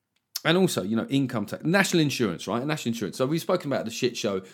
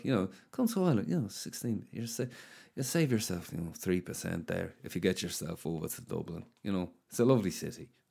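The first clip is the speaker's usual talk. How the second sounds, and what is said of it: Put-on Irish accent, drifting. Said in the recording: “I don't know where the fuck is that accent gone. It became Terry Wogan towards the end.”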